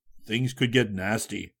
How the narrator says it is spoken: Geronimo muttered

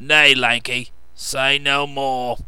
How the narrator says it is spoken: growled the old man

